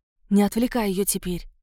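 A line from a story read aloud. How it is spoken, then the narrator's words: Whisper. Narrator (Russian): шепнула Марго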